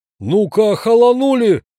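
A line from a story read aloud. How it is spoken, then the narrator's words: Angry host roaring. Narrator (Russian): взревел хозяин дома, когда ущерб его гостиной перевалил за 3000 рублей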